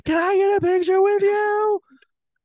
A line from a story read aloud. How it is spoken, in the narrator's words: drunk at a baseball game once, she screamed at Jalapeno Hannah